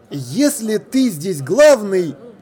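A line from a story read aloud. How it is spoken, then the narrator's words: Loud, expressive. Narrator (Russian): громко и выразительно произнес он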